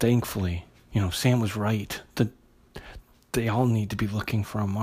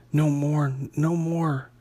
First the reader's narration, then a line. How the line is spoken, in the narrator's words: The cop's terrified, obviously, and he releases Amara, and she cries